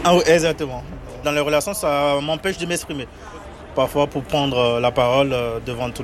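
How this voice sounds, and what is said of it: Beninese French accent, unclear Rs. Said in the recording (French): “Mon accent, c'est... Des fois, il y a par exemple les R qui ne sont pas bien prononcés... C'est un accent qui vient d'où ?... Du Bénin, je suis béninois.”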